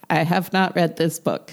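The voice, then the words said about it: Imitates another person's voice. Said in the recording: “my best Madeline impression”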